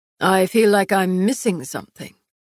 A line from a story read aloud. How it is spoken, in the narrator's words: Valen murmured